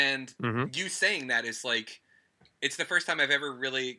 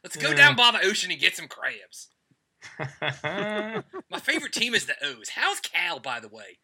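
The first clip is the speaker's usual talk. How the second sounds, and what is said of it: Put-on Baltimore accent. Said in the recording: “the first time I did a Baltimore accent ... Balmer”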